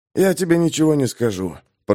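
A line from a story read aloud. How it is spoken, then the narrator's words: Hoarse rasp. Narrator (Russian): прохрипел Пейнтер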